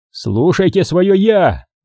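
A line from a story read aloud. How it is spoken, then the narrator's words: Shouting after them. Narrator (Russian): крикнул Козуб им вслед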